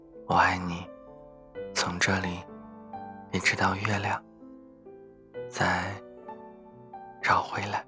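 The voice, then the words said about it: Soft, quiet smiling voice. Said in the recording (Chinese): “小声的微笑着说”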